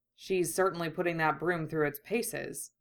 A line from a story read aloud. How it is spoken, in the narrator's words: Kurama murmured appreciatively